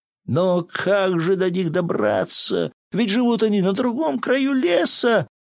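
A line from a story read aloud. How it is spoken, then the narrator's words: Despairing sobs, brothers. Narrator (Russian): всхлипнули в отчаянии братья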